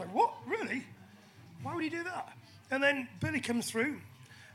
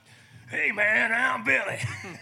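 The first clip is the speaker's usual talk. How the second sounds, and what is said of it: Imitated American-accented voice. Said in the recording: “I kind of the accent.”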